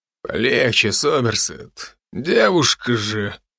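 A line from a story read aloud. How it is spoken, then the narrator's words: Deep bass voice. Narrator (Russian): пробасил тот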